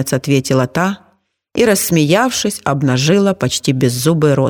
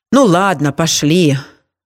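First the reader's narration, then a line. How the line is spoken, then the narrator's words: Sighing. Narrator (Russian): вздохнула женщина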